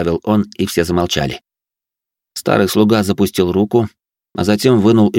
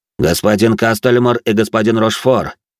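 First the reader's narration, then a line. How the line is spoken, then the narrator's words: Loud announcement. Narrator (Russian): громко произнес он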